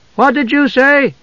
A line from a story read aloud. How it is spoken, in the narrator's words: Tasselhoff asked loudly